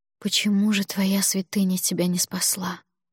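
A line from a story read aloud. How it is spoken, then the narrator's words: Whisper. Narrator (Russian): прошептала я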